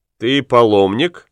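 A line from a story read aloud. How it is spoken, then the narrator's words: Plain. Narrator (Russian): спросил папа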